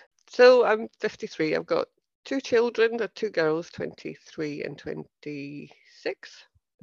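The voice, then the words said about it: Scottish accent. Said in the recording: “my accent is Scottish ... I still got my accent”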